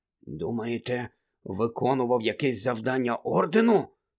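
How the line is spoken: Muttered under breath. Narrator (Ukrainian): пробурмотів підніс Рон

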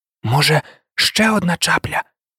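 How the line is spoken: Soft whisper. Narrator (Ukrainian): тихо прошепотів Ян

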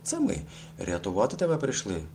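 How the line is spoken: Exclaimed. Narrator (Ukrainian): вигукнув Калько

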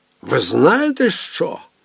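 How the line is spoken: Exclamation. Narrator (Ukrainian): вигукнув Фішерле

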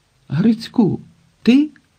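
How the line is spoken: Exclaimed. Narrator (Ukrainian): вигукнув Швайка

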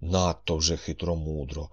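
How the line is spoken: Doubtful grumble. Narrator (Ukrainian): Буркнула вона із сумнівом

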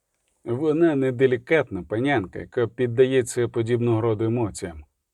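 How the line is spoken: Mutter. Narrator (Ukrainian): пробурмотів

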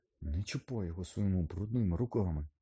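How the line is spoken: Barely audible rasp. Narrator (Ukrainian): Ледь чутно прохрипів Гаррі

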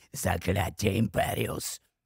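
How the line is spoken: Whispering. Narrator (Ukrainian): зашепотів

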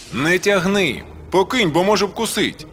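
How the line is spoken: Mother shouting from doorway. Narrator (Ukrainian): З порога крикнула Андрійкова мати

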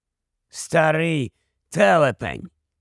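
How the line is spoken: Grumbled. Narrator (Ukrainian): буркнув Еберфорс

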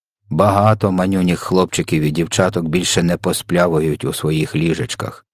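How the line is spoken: Plain. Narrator (Ukrainian): сказав ВДВ

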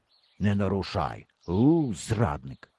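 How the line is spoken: Muttered. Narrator (Ukrainian): пробурмотів

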